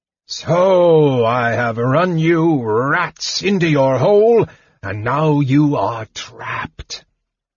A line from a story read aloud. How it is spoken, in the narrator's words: boomed Pyros's voice from outside